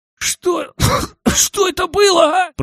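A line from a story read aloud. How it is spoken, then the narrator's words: Wheezing. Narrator (Russian): просипел Мишка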